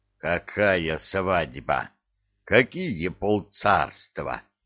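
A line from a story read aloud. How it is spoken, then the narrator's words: Growl. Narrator (Russian): зарычал Илья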